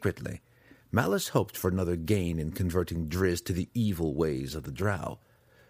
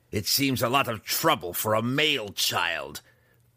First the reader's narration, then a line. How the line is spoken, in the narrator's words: Breeza grumbled